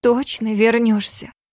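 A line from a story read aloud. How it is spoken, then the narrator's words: Quiet, tearful question. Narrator (Russian): Тихо переспросила Ками, в ее глазах блеснули слезинки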